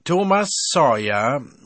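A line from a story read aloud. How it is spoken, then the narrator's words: Loud stern call. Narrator (German): rief es in diesem Moment laut und streng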